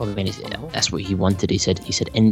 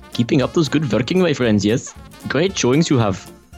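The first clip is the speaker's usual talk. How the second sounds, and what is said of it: Put-on Indian accent. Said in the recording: “read something in an Indian accent ... I don't think I've ever done an Indian accent ... That wasn't bad. Slightly xenophobic, but good stuff ... Indian xenophobic accent”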